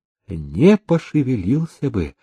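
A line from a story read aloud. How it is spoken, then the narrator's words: Timid reply. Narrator (Russian): робко отозвался молодец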